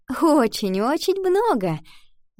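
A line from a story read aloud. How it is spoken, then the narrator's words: Laughing. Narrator (Russian): она рассмеялась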